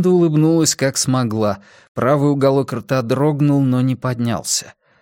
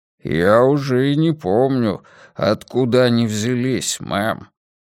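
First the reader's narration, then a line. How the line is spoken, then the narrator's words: Deep bass voice. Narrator (Russian): пробасил Коффи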